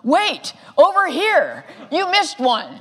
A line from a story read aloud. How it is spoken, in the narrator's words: shouted